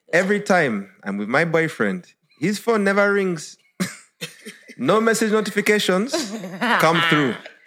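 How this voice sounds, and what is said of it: Put-on accent. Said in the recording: “Why are you going to put the accent? ... you got an accent. So I've got to do it now. ... I don't want to hear Queen's English. It must be through the accent.”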